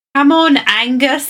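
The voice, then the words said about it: Scottish-accented cartoon character voice. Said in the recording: “I think she just did an Irish accent, a Scottish accent. ... Yeah, it's Scottish.”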